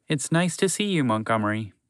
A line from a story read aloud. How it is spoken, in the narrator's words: Unpredictable Horse said gently